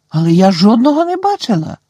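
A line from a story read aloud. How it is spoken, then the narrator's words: Exclaimed. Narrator (Ukrainian): вигукнула Герміона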